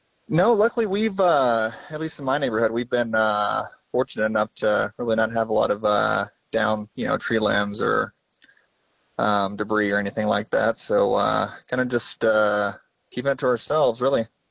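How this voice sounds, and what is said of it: American accent. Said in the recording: “I am detecting an American accent.”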